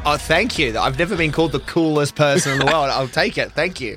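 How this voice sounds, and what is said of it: Speaks with a noticeable accent. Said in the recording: “Don't let that accent fool you”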